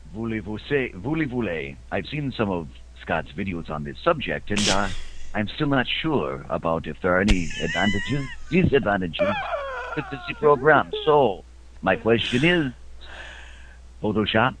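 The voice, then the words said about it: Put-on French accent. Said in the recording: “I want to hear you read this one in a French accent.”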